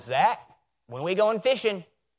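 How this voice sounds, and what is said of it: Imitated grandfather's accented voice. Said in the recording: “Just like that, by the way. I think I nailed my grandfather pretty well with the accent.”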